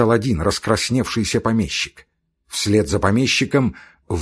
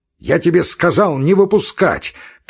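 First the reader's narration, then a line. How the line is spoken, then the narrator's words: Shouting. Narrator (Russian): крикнул он сторожу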